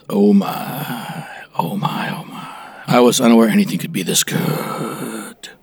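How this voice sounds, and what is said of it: Put-on sexy voice. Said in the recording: “That's his sexy voice”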